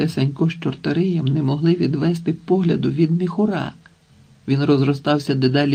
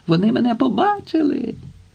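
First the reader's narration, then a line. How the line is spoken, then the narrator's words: Joyful, from below. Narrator (Ukrainian): радісно сповістив невидимий знизу Телесик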